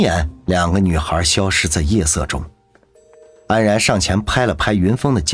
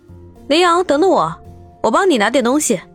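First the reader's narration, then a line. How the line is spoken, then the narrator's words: Quick shout. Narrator (Chinese): 凌霜马上喊道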